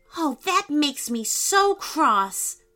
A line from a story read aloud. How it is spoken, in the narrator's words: said Asher angrily